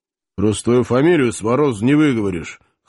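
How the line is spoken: Grunt into mustache, ex-officer. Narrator (Russian): хмыкнул в усы бывший подъясаул

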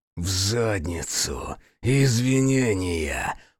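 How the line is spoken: Growled. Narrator (Russian): прорычал Хицу

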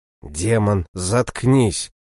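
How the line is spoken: Inner growl. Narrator (Russian): мысленно прорычал я

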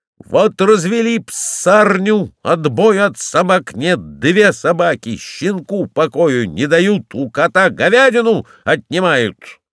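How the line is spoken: Shouting. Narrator (Russian): Он кричал

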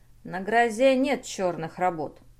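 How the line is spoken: Dry objection. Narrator (Russian): сухо возразил Маккарти

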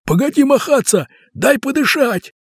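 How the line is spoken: Shouting. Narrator (Russian): на него закричали

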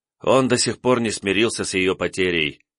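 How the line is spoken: Sighing, brother. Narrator (Russian): вздохнул брат

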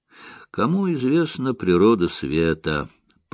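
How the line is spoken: Mumbled. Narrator (Russian): пробормотал Ярдли

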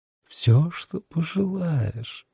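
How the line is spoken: Honey-sweet purr. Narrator (Russian): промурлыкал сладким, как мед, голосом

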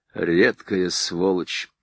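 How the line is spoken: Muttered. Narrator (Russian): пробормотал ему вслед Кондратенко

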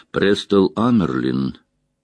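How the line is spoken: Calm. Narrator (Russian): спокойно сказала Моррейн

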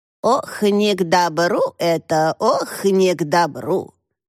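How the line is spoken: Silly old-woman voice. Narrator (Russian): дурашливым старушечьим голосом проговорила Тошка

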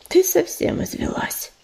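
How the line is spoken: Affectionate nuzzle. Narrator (Russian): ласково дотронулся носом до ее уха

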